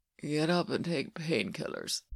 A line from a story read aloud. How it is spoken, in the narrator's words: says Ilya, low and slurred